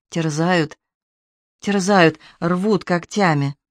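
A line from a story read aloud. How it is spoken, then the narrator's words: Mumbling. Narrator (Russian): Он бормотал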